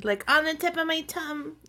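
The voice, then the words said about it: Baby voice. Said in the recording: “I did the baby voice”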